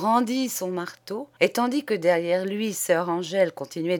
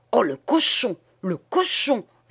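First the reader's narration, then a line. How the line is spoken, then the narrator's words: Bellowed, chant-like. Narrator (French): vociféra monsieur le doyen en manière de rat pronobis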